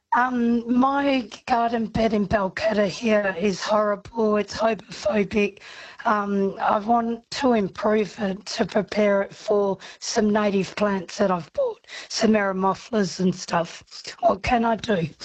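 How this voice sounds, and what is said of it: Hoarse voice from laryngitis. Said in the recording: “I've got laryngitis.”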